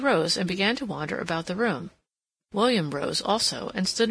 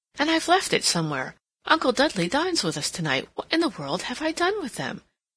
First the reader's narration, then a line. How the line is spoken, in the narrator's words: exclaimed